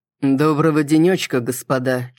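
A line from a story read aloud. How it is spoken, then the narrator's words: Slightly mocking, smiling. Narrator (Russian): чуть насмешливо улыбнулся мистер Лукас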